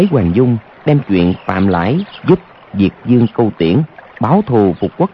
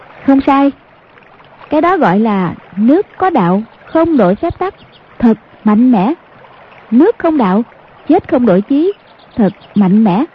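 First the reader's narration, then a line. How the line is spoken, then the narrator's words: Smiling. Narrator (Vietnamese): Hoàng Dung mỉm cười nói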